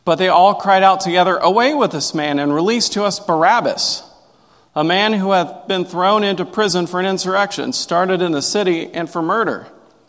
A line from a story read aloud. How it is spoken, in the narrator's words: they kept shouting